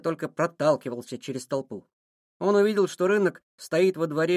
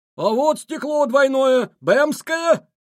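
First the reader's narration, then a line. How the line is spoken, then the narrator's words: Vendor's shout. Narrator (Russian): кричал у входа стекольщик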